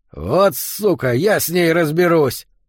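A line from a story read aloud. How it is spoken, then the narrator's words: Growled. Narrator (Russian): прорычал Йота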